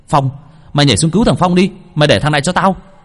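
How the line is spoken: Shouted. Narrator (Vietnamese): Hồng hét lên

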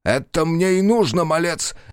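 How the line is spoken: Barking. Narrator (Russian): рявкнул Сарбан

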